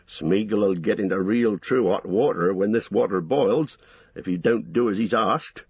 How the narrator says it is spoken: growled Sam

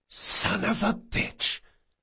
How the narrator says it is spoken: he hissed

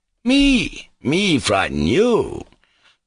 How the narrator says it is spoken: cried Mitya

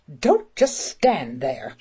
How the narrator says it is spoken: she said crossly to Cimmerine

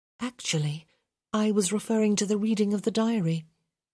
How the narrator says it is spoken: Hyacinth murmured

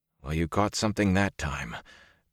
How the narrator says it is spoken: Perrin said hoarsely

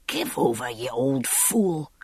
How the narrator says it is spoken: he hissed

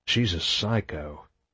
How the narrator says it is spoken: Marcus whispered

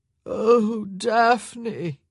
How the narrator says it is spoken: Nigel moaned

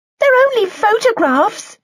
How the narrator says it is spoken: she yelled over her grandmother's voice

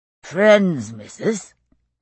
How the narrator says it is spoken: said a man's voice, slurred with drink

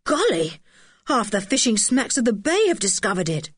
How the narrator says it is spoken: cried Julian

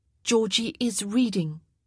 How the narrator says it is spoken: Penelope said firmly

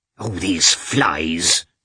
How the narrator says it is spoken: cried Agafya Mikhailovna crossly

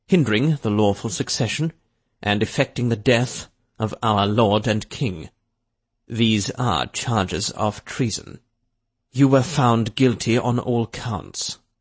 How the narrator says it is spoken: Drake continued calmly

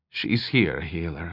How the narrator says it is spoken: the rover girl responded quietly

